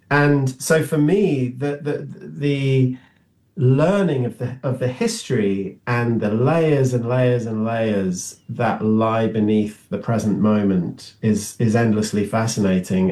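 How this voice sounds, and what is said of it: Non-American accent. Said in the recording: “As you can tell from my accent, I wasn't born here.”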